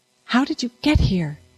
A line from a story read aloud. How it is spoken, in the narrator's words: Constance whispered